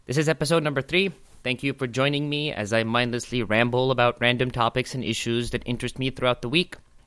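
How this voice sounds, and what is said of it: Speaks with an accent. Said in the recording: “I have an accent.”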